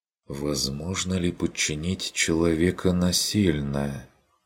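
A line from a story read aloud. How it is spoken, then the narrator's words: Thoughtful repetition. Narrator (Russian): Повторила Адельхайда задумчиво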